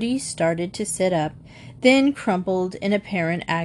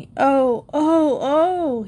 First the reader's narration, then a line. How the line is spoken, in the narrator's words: moaned